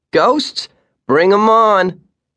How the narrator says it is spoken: the boy shouted

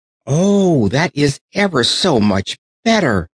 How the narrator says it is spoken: cried Raggedy Ann

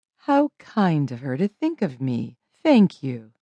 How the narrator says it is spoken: said Mrs

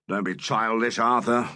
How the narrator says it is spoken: rumbled Saint

